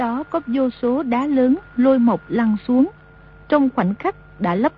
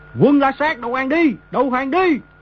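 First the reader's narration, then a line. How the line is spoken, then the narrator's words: Thousands shouting in unison. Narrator (Vietnamese): tiếng mấy ngàn người đồng thanh quát lớn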